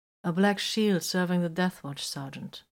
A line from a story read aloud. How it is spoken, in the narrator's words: Vox replied flatly